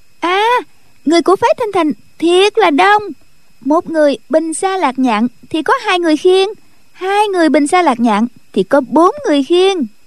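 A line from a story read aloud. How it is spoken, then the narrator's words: Young girl exclaiming suddenly. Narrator (Vietnamese): Tiểu cô nương bỗng nhiên la lên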